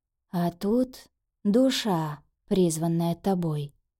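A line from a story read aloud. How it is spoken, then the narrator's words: Quiet reply. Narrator (Russian): ответил тихо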